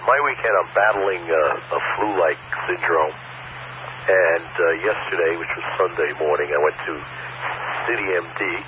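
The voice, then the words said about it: Hoarse, strained sick voice. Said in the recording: “You can probably hear my voice is still shot”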